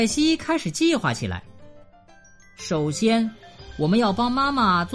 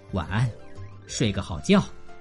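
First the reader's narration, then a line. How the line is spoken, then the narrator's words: Soft, gentle father. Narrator (Chinese): 爸爸轻声说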